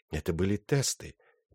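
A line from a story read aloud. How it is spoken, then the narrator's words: Quiet. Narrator (Russian): тихо сказал он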